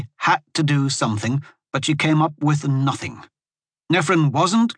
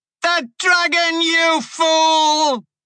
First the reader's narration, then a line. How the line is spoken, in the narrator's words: she screamed